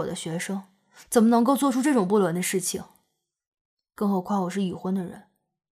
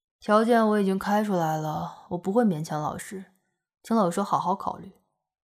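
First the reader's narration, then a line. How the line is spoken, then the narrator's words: Calm, flat. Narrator (Chinese): 杨爷也不生气，淡淡的说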